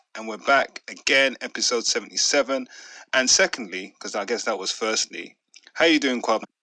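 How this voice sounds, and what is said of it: Unsteady, strained voice. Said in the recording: “my voice is all over the place this week ... I'm good, apart from my throat”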